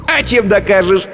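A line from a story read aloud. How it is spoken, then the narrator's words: Old man giggling. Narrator (Russian): хихикнул старичок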